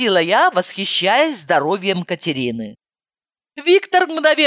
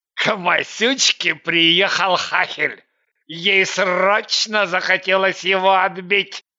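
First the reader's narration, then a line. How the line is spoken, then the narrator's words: Triumphant announcement. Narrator (Russian): С видом победителя сообщил он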